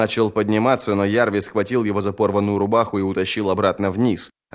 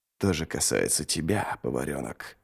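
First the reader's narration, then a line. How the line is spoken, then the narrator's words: Whisper. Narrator (Russian): прошептал Ничто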